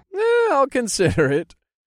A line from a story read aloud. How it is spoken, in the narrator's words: I chuckled